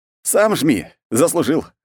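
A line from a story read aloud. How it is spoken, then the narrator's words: Smirking grunt. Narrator (Russian): хмыкнул я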